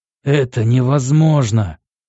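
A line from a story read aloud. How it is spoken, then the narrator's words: Agitated outcry. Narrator (Russian): вскричал взволнованно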